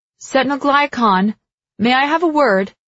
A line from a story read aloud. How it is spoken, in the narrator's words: I shout up the stairs